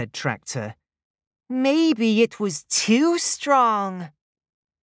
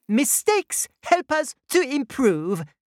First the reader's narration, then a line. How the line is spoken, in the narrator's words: she chirped